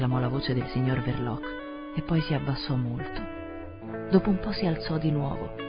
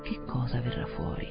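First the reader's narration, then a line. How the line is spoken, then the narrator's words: Murmured. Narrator (Italian): il privato cittadino Heath mormorò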